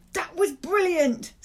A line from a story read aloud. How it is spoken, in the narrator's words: Salam yelled